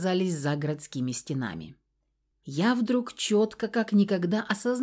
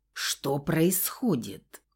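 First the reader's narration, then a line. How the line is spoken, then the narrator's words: Hissed. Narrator (Russian): прошипела ему в лицо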